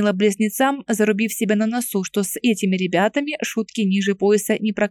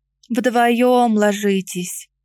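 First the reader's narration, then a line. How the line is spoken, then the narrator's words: Heavy sigh. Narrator (Russian): Тяжело вздохнула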